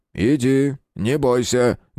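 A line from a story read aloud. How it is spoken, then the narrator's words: Rough. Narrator (Russian): грубо ответил Ладынин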